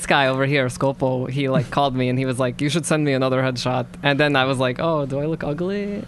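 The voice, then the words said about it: Russian accent. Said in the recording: “you're a Russian accent”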